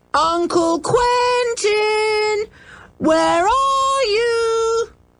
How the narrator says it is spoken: They shouted again

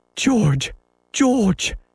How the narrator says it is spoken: she cried, but she could not speak

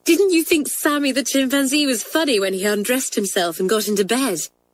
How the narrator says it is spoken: asked Kathleen eagerly

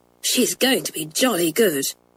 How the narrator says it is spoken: whispered Janet to Pat

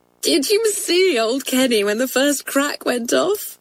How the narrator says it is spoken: cried Joan

